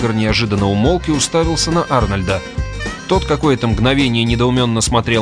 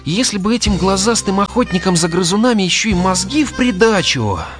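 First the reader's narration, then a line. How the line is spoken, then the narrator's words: Sad remark. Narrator (Russian): печально заметил Арнольд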